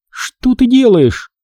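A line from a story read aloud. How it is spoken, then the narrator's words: Exclamation. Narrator (Russian): воскликнул Хизер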